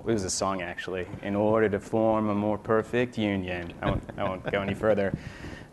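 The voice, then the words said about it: American accent. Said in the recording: “you can probably tell by my accent that I didn't grow up here and I didn't grow up in Canada. I grew up in the U.S.”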